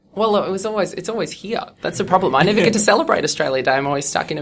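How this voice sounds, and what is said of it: Australian accent. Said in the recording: “one of my favorite Aussies ... The accent will probably freak a lot of people out”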